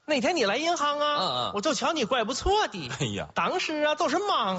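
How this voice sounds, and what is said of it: Strong regional Chinese accent. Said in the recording (Chinese): “我真没想到这分了人都是这个口音呢 ... 乡音无改”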